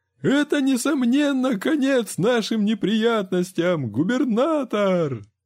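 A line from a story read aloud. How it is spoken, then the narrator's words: Joyful yell. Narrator (Russian): радостно заорал фермер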